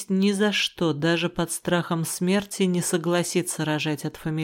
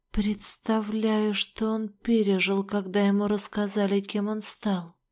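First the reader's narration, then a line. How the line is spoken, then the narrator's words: Shocked whisper. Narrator (Russian): в шоке прошептала я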